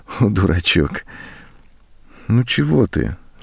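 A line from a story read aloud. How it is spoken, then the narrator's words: Tender. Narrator (Russian): ласково сказала она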